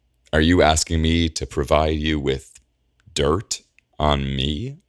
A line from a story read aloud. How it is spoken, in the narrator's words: Alondra says slowly